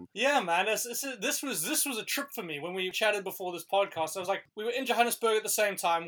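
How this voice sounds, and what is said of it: South African accent. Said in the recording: “You are the only one who got the sexy South African accent.”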